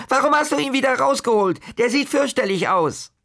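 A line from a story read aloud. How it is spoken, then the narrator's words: Breathless roaring. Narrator (German): brüllte Kaspar atemlos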